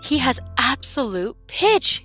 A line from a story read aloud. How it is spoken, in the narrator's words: said in a shaky voice